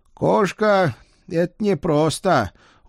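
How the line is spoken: Glum admission. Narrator (Russian): уныло признал он

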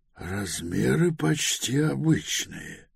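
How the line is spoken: Muttering. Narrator (Russian): пробормотал Пилород

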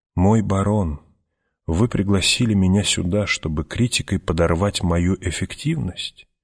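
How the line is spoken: Quiet sullen question. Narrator (Russian): Питер тихо, угрюмо спросил

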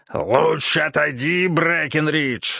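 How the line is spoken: Growled. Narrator (Russian): рычал Эрот

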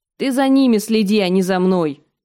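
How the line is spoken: Sharp bark. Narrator (Russian): рявкнула она пирожку

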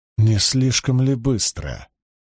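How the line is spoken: Quiet remark. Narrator (Russian): негромко заметил Ранд

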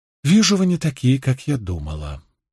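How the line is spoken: Calm speech. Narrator (Russian): спокойно сказала

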